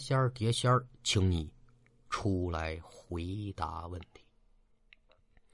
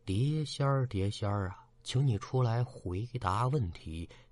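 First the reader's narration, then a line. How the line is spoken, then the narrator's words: Soft murmuring. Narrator (Chinese): 二人嘴里轻声的嘀咕说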